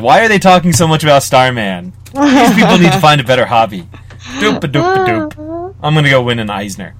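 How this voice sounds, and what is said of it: Imitates another person's voice. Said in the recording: “my James Robinson impression, which is not accurate at all.”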